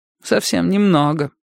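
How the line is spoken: Glum, forced reply. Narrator (Russian): уныло выдавила Кэтрин Кент

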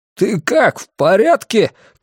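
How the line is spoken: Shouting. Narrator (Russian): крикнул я

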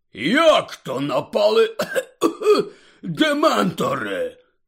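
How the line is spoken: Hoarse rasp. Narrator (Ukrainian): прохрипів Гегріт

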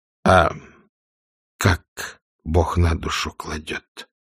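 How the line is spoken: Quiet, tense question. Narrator (Russian): тихо спросил Шилович, напряженно ожидая ответа

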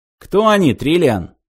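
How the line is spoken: Irritated question. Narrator (Russian): раздраженно спросил Зафот

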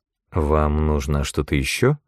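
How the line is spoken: Uncertain question. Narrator (Russian): неуверенно спросила герцогиня

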